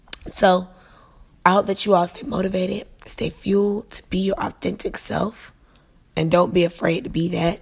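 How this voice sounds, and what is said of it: Strained voice cutting in and out. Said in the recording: “I kind of struggled through this podcast because my voice is going in and out”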